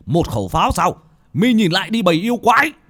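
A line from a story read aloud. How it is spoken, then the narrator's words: Wounded, shouting. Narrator (Vietnamese): Một vị pháp sư cầm cái chuông, khắp người đầy máu tươi, vết thương vẫn chảy máu, mà quát lên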